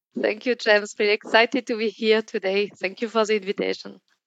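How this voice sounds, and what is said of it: French accent in English. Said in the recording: “your accent is not an English one ... France”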